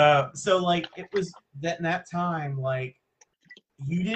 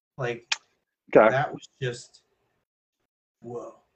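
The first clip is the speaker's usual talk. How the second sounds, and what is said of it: Imitates another person's voice. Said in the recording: “great Keanu Reeves impersonation”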